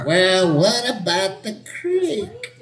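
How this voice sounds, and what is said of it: Young person doing old voice. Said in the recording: “You sound like a young person doing an old person voice.”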